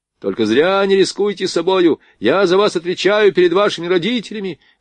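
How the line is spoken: Ensign shouting after her. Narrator (Russian): кричал ей вслед прапорщик

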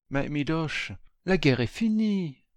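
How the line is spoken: Gentle. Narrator (French): me dit doucement Lila

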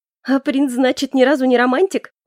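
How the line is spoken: Clarifying after laughter. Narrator (Russian): уточнила Ленка, отсмеявшись

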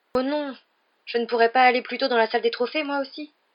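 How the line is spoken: Desperate tone. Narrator (French): dit Harry d'un ton désespéré

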